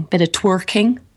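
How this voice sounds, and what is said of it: Put-on Somerset accent. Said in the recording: “did you say that with a Somerset accent? ... I did.”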